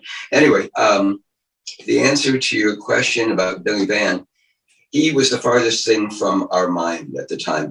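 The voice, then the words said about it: Slightly hoarse voice. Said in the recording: “I'm a little bit hoarse today.”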